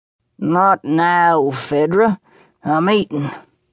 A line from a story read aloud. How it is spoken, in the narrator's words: said in a southern drawl